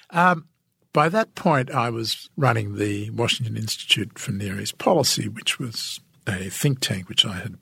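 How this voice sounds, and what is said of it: Australian accent. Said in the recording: “what is an Australian doing telling us how to run our foreign policy? ... my accent turned out to be a great asset ... he liked my accent”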